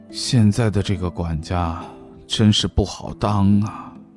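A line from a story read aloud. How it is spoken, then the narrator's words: Sighing, leisurely murmur. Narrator (Chinese): 王楚风叹了口气，悠悠的念道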